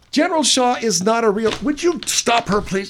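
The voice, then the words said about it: Made-up character voice. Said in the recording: “I'm a made-up voice. doing my voice right now... he's all by himself in the studio right now doing these five different voices”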